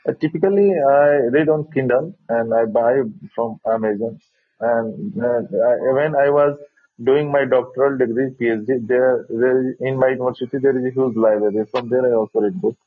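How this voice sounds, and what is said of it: Thick, strong accent. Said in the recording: “Your accent's pretty thick ... I wish your accent was a little less strong so I could understand you a little clearly”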